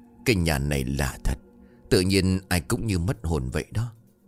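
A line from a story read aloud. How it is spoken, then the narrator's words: Old woman muttering. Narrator (Vietnamese): Bà Tốt lẩm bẩm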